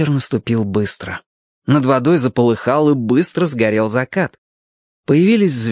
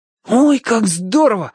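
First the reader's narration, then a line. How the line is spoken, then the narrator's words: Excited exclamation. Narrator (Russian): воскликнул Алешка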